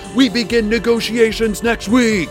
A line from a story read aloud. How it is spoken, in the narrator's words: Hadassah shouted